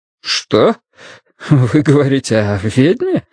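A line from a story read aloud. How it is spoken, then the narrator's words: Nervous laugh. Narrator (Russian): Смайт нервно засмеялся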